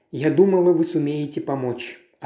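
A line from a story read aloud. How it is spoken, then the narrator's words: Plain. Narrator (Russian): ответила миссис Оливер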